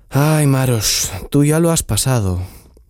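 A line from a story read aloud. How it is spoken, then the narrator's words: Sighed. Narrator (Spanish): suspiró Tsiprich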